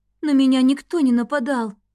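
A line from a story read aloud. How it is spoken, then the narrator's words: Dejected reply. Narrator (Russian): уныло ответила Эви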